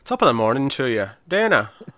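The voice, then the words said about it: Poor attempt at Irish accent. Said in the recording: “I can't do an Irish accent. I apologise for whatever that Deanna was that came out of my head. ... I can't do it.”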